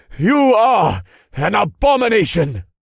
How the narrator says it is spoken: he cried out as his men were torn into shreds

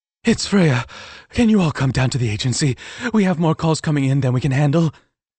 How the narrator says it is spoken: panted, obviously stressed

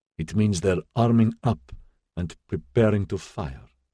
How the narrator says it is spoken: she said very evenly, as if barely surprised

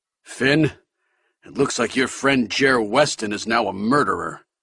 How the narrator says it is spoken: Abernathy said, grimly

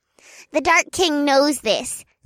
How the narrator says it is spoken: Zeedee squeaked as she bounced up and down

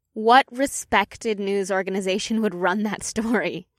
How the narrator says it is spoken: Leah chuckled

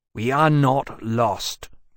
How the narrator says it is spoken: Temeraire said rather coldly

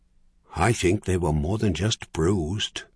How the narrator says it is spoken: Doyle said quietly

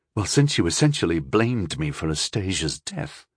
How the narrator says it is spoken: Rondal said, much more quietly than he intended

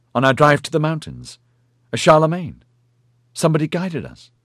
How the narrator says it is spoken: he exclaimed excitedly

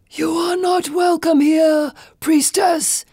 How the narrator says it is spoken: Phelon shouts

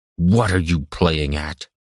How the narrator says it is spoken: growled under his breath from just inches away

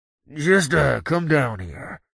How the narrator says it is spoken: Paul said with a grunt

